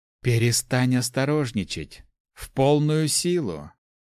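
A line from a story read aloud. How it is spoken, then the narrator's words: Growled. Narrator (Russian): рыкнула она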